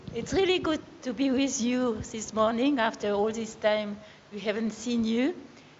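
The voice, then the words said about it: Slight French accent. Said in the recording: “You'll enjoy her little French accent.”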